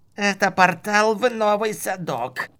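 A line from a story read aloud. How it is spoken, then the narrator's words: Strained creak through teeth. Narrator (Russian): проскрипел маг сквозь стиснутые усилием зубы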